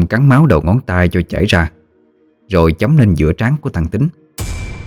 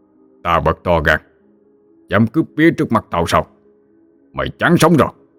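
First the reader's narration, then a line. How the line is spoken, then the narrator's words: Sudden fierce shout. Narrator (Vietnamese): Thầy Nghĩa bất ngờ quắc mắt mà quát lên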